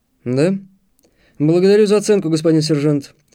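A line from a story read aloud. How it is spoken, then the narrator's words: Snorting grunt. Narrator (Russian): хмыкнул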